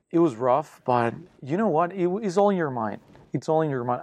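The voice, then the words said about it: Thick foreign accent. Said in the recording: “with this thick accent”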